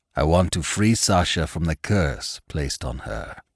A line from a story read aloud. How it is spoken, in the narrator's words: Kianzo said, his voice rumbling strong and authoritative